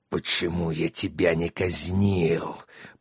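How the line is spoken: Hissed. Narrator (Russian): прошипел Триксу Сатор

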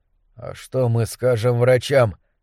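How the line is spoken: Weakening voice. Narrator (Russian): спросил Кэл слабеющим голосом

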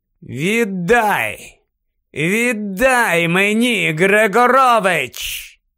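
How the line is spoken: Clear, cold voice. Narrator (Ukrainian): Гаррі говорив чистим і холодним голосом

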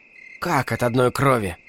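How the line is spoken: Mysterious whisper. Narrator (Russian): Агнешка таинственно прошептала

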